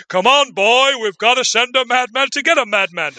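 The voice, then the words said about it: Walter Matthau impression. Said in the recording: “I was going to say it's my Walter Matthau impression.”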